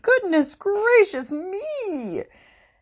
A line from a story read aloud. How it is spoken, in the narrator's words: Then she looked into the water and exclaimed